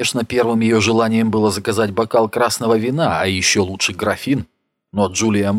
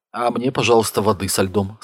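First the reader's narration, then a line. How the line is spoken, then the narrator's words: Plain. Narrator (Russian): сказала Джулия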